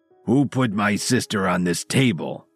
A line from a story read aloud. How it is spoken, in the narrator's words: he bellowed